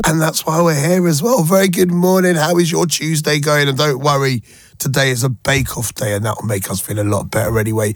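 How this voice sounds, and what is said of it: Croaky, hoarse voice. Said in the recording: “my voice is a little bit croaky this morning”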